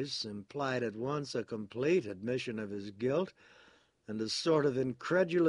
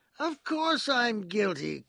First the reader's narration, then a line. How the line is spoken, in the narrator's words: cried Parsons